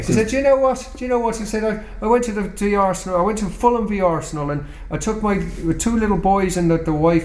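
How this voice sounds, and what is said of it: Put-on Irish accent. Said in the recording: “I'll do the Irish accent”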